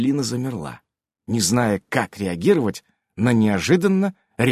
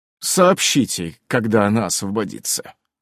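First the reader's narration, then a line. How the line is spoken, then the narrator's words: Cold. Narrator (Russian): холодно произнес Иннокентий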